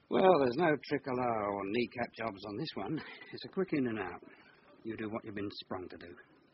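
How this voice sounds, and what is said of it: English cockney accent. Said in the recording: “I might have an English accent ... You're a cockney chancer.”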